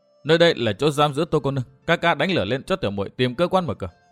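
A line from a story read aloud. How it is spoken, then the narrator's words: Soft, quiet. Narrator (Vietnamese): nàng liền khẽ khẽ nói với Ngọc Cô Hàn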